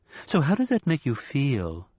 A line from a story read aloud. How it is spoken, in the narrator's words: asked, in a sympathetic voice